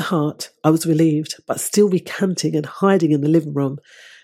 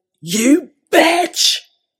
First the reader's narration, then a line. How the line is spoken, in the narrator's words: He was stunned momentarily and then shouted